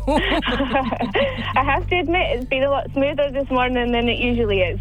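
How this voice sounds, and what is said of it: Scottish accent. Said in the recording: “Is that a Scottish accent you have there? ... It sure is, yes.”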